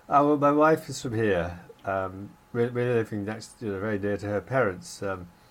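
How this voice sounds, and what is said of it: Distinctly English accent. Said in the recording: “I detect a distinctly English accent”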